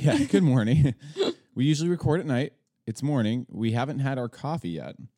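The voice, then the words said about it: Slightly deeper, low-energy morning voice. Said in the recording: “maybe you notice less pep. Maybe you notice that my voice is slightly deeper ... Deep voice.”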